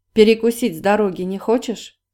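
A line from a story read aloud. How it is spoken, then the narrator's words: Plain. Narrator (Russian): спросил Анжей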